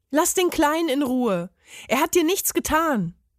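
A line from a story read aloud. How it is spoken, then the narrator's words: Calling out. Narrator (German): rief er dem Parmesan zu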